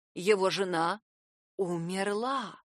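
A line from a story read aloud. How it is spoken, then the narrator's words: Near whisper. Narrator (Russian): произносит почти шепотом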